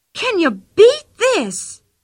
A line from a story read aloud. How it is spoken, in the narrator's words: She cried suddenly